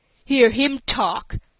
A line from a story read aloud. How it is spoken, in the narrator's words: said Roswell Crawford, with an unpleasant sneer